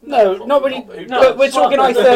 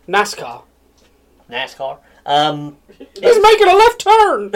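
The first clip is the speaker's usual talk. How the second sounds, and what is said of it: Put-on American accent. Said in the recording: “Add American accent here. ... Add generic accent here.”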